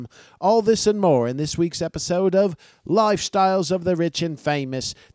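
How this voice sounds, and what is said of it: Imitation of Robin Leach's accent. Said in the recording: “This has been Robin Leach. ... Yeah, I know, I gotta work on that accent.”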